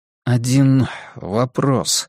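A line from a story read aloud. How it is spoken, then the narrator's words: Dry, hopeless tone. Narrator (Russian): сказал сухо, тоном лишенным надежды и обаяния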